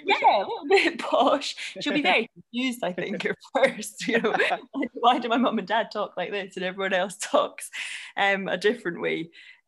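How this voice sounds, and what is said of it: Scottish accent. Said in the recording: “I'm Scottish ... I've got a Scottish accent”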